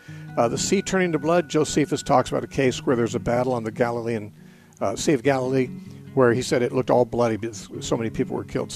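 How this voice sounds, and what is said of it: Very fast speech. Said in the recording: “I'm talking so fast.”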